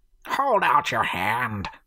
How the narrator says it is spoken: Leatherbag growled

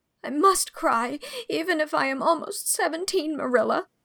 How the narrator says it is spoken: she sobbed

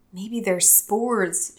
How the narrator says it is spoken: she whispered

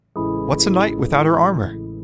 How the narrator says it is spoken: Belle asked, his voice full of surprise

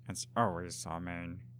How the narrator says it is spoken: he muttered

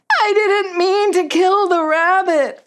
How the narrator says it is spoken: sobbed

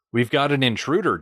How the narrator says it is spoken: Jang said

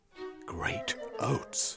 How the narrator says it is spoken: Velveen whispered

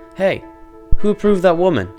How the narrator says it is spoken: He shouted over the automated cheers booming over the loudspeakers

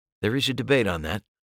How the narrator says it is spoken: I said quietly

